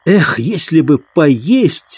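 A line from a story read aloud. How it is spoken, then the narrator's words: Exclaiming. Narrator (Russian): воскликнул Дик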